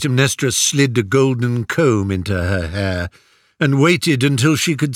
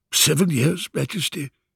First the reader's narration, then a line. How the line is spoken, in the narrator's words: mumbled the tutor